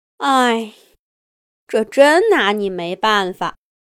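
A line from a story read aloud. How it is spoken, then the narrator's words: Sigh. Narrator (Chinese): 莎莎叹了口气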